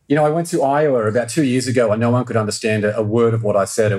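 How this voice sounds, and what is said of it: Non-American accent. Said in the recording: “It always does sound better when you have an accent ... still haven't even come close to shaking my accent ... It's beautiful”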